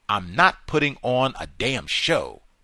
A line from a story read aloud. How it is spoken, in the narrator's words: Pratt snapped at a crew-cut young deputy